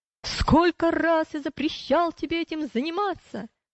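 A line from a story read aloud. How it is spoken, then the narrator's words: Shouting. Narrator (Russian): Вредитель, увидев пилигримов, закричал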